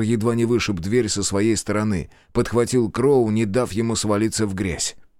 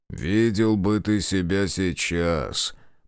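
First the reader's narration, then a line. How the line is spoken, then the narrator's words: Grumbling. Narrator (Russian): проворчал Райдер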